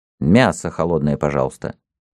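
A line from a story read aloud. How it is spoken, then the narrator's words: Muttered. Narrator (Russian): Он сказал, вернее, пробормотал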